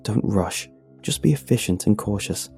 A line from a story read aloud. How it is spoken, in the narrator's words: I mutter to myself